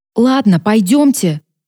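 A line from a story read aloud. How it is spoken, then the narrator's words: Shout. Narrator (Russian): крикнул один из них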